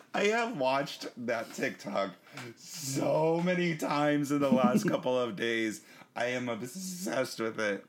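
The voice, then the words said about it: Hoarse, failing voice. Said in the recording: “My voice is going.”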